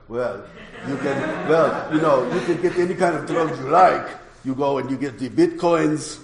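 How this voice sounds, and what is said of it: Very heavy Russian accent. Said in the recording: “a very, very heavy Russian accent”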